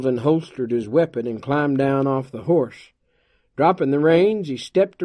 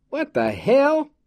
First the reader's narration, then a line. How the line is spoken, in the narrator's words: he exclaimed